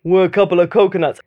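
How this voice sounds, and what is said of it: Terrible sing-song Sylvester Stallone impression. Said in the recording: “terrible impression ... in this sort of sing-song voice that I knew from children's TV”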